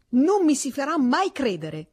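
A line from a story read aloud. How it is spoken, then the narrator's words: Student shouting. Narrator (Italian): gridò lo studente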